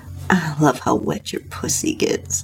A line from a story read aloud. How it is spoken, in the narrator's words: he said with a moan